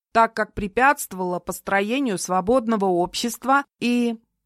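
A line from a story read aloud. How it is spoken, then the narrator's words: Loud reading aloud. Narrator (Russian): продолжал громко зачитывать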